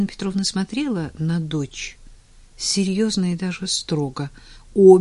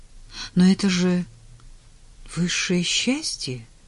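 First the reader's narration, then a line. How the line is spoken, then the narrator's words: Uncertain objection. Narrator (Russian): неуверенно возразила Таня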